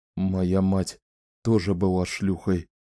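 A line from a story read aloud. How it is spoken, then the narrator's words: Whisper. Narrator (Russian): прошептал он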